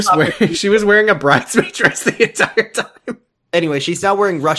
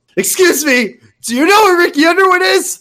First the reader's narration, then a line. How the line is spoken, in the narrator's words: I yelled through the crowd of people